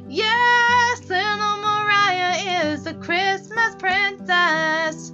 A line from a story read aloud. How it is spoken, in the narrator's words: shouted the boys gleefully